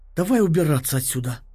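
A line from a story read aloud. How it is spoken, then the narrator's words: Breathless exhale. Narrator (Russian): выдохнула Октавия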